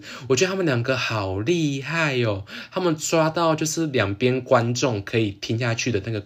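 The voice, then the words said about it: Heavy Taiwanese Mandarin accent. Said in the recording (Chinese): “连我自己听我自己录的这个 podcast 都有一点就是台湾腔很重”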